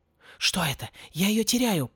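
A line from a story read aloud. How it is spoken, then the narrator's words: Whisper. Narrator (Russian): прошептал Порри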